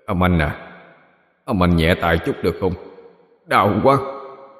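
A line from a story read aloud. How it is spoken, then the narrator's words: Lowered voice. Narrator (Vietnamese): hạ giọng nói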